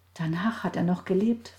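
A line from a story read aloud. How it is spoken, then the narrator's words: Whispering. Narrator (German): flüsterte Johanna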